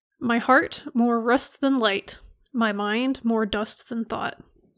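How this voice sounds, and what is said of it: Dramatic poetry-reading voice. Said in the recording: “I'm not very good at doing a dramatic voice,”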